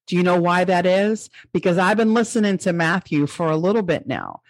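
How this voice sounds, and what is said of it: New York Long Island accent. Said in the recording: “my New York accent is going to come out a little stronger ... I still say the coffee and the dog ... back on Long Island”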